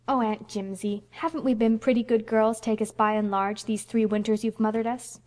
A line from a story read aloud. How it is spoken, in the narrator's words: pleaded Phil